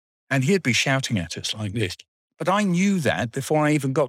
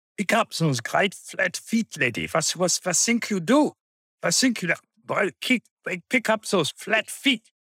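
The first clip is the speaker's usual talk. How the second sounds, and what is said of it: Shouted put-on Swiss accent. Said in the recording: “shouting in his Swiss accent”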